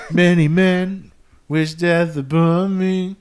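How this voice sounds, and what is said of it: 50 Cent impression. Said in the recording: “your impression ... my 50 Cent impression”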